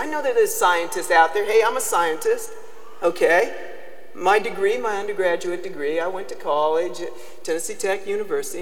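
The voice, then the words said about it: Southern US accent. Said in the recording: “That's where my southern accent comes from... it's terrible to have a southern accent sometimes”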